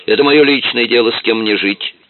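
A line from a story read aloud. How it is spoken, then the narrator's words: Snapped. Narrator (Russian): огрызнулась женщина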